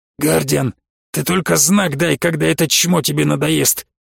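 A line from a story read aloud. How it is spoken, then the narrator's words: Hoarse. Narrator (Russian): хрипло сказал Кандей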